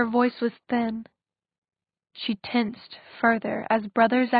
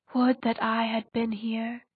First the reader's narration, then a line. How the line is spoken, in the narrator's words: he said, his voice unexpectedly gentle